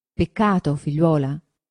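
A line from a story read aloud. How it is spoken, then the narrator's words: Plain. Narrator (Italian): disse il padre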